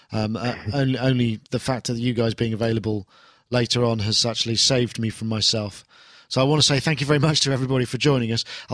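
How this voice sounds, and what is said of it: Tired, strained voice giving out. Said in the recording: “my voice is starting to give up. I've been talking nonsense for so long.”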